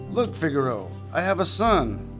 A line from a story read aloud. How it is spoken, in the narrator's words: Geppetto cried